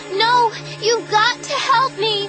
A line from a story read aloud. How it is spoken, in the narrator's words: I screamed